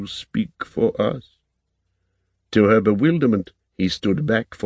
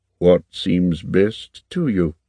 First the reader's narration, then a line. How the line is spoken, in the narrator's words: Lord Horn replied in his muted, steady tone